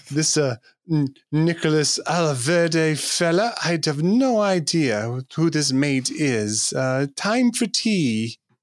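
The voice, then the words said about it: Patronizing put-on British accent. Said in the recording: “the most like patronizing British accent ever”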